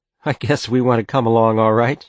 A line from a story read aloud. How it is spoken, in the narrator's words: she said, and laughed as if she might cry